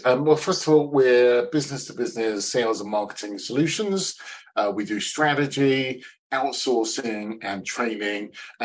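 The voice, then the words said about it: Eloquent English accent. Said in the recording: “your eloquent accent”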